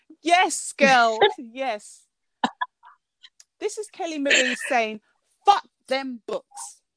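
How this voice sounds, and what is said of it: British accent. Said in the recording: “With my proper accent ... With a proper British accent”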